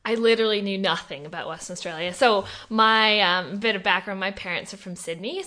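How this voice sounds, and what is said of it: Non-Australian, Canadian accent. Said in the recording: “you don't necessarily have an Aussie accent ... you came here in 2014 from Vancouver in Canada”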